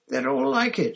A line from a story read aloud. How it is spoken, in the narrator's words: said Hermione, desperately